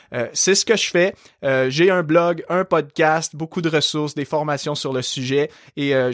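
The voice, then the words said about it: Light Québécois French accent. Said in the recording (French): “tu as un léger accent... Je suis québécois... c'est de là que j'ai hérité de mon bel accent”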